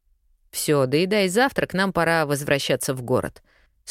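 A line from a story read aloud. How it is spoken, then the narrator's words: Stern voice. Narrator (Russian): строгим голосом спустил ее с небес на землю Бархатов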